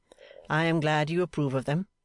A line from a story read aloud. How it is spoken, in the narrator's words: said Mr